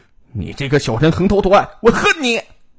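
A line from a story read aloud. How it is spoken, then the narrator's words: Roaring. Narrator (Chinese): 秦兵在混乱之中挣扎着爬起来，冲郑东进吼道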